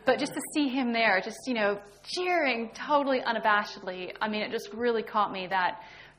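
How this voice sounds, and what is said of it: Non-British English accent. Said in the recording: “there's not a very British accent.”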